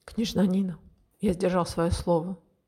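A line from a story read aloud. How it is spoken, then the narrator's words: Calm speech. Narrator (Russian): спокойно сказал незнакомец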